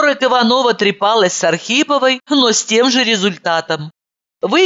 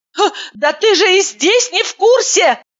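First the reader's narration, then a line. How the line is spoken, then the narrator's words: Astonished exclamation. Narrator (Russian): воскликнула я, поражаясь глубинам провала в своей памяти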